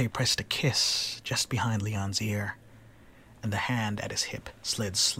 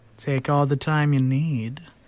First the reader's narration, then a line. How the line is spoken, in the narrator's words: the Slayer purred